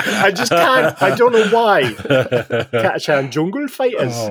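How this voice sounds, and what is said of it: Usual voice. Nothing is said of it.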